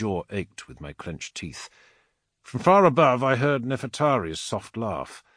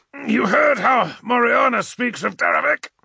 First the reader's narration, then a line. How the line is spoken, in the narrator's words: Abaddon continued, grunting the words now, his own temper rising in mirror of mine